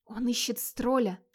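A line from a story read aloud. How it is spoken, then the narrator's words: Whisper. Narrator (Russian): шепнула Борктруд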